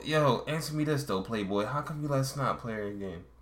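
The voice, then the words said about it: British man faking a Baltimore accent. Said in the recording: “He's like doing the British dude. He's a British guy doing a Baltimore accent ... his voice sounds dumb. He sounds stupid.”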